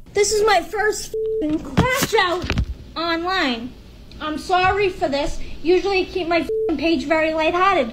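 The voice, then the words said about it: Speaks with an accent. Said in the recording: “she has an accent”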